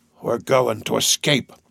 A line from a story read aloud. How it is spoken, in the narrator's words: I heard him tell me in a low voice